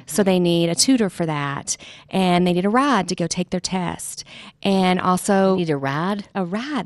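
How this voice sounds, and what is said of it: Mississippi Southern accent. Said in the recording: “my Mississippi accent coming out ... I love Southern accents”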